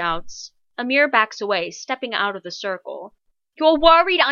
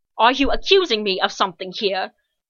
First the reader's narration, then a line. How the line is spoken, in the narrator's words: Kev retorts angrily